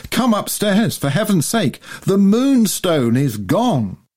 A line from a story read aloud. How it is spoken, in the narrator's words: she screamed